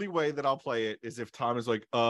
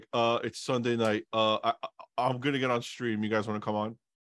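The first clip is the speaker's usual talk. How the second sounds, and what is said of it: Imitation of a co-host's accent. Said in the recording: “That's exactly what I sound like when I ask... The accent was perfect too.”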